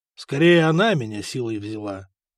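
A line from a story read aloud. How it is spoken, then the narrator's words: Dejected reply. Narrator (Russian): уныло ответил Год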